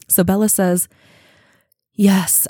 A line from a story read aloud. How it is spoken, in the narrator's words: I sighed